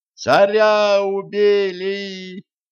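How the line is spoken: Crowd yelling. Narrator (Russian): завопила толпа

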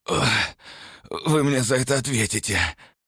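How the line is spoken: Strained hoarse wheeze. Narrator (Russian): прохрипел он, пытаясь хоть как-то разогнуться

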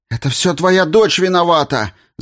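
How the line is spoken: Shouted. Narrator (Russian): закричала Марта

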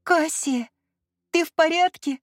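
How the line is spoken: Trembling voice. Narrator (Russian): Дрожащим голосом спросила Ливия

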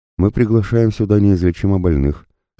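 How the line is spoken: Calm reply. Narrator (Russian): спокойно ответил ему пророк

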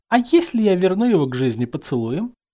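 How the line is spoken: Flirtatious coo. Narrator (Russian): кокетливо проворковала синяя домино

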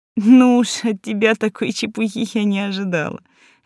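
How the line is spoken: Laughing, female. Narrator (Russian): рассмеялась принцесса

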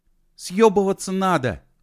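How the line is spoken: Angry, hurt shout. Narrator (Russian): гневно и обиженно крикнул Костик

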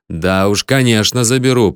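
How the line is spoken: Grumbled. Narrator (Russian): проворчал я

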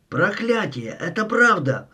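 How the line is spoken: Yelling. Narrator (Russian): заорал

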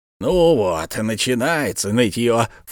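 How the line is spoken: Snorting. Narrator (Russian): фыркнул Бензуф

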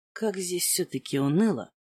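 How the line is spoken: Muttered. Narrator (Russian): пробормотал Маркус

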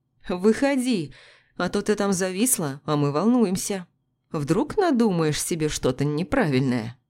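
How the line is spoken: Laughing. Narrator (Russian): Он засмеялся

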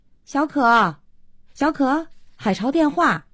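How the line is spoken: Calling out. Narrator (Chinese): 慧娟一边敲门一边叫

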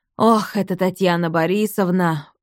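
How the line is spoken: Sigh. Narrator (Russian): вздохнул Рустам

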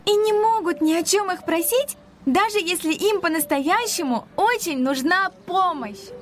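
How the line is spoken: Shouted with a smile. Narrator (Russian): с улыбкой выкрикнула Ника

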